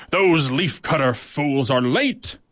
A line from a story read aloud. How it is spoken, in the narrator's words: she snarled